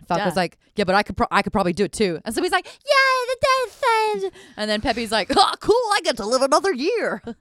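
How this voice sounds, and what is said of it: Switches between several character voices. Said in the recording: “That was a good impression. ... reenacting five different voices ... all the different voices you did and your commitment to all the characters”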